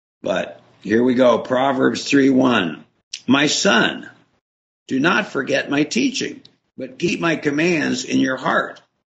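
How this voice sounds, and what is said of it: Slightly raspy voice. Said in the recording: “I'm a little raspy.”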